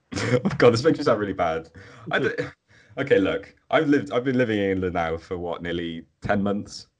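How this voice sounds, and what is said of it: Welsh accent. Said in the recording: “if you couldn't hear any accents, I'm English. is not. ... I am Welsh”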